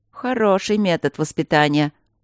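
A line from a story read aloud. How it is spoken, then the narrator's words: Mocking, quite human. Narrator (Russian): сказал он насмешливо и совсем по-человечески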